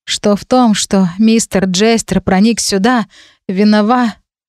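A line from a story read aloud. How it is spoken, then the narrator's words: Sighing. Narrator (Russian): вздохнула я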